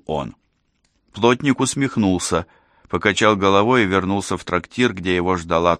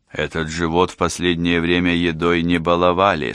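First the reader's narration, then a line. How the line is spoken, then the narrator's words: Plain. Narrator (Russian): сказал он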